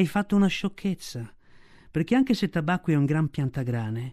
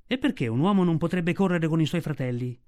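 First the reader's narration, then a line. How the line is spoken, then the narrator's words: Plain. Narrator (Italian): disse Mowgli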